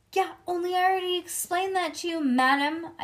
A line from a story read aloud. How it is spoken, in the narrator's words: I shouted in Lucille's face